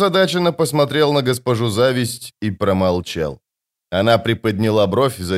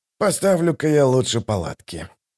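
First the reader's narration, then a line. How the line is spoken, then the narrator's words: Muttered. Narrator (Russian): пробормотал он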